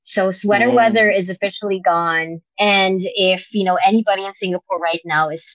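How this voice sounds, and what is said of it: Usual voice. Nothing is said of it.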